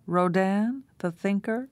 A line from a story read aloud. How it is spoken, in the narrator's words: Her mother laughed again